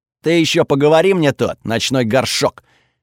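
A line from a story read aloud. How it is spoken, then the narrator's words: Barking shout. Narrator (Russian): рявкнул Готфрид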